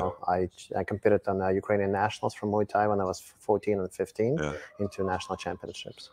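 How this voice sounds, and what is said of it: Noticeable foreign accent. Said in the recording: “you still got a pretty good accent”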